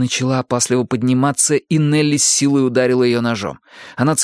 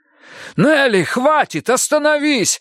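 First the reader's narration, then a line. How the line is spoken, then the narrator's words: Shout. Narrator (Russian): закричал Эрик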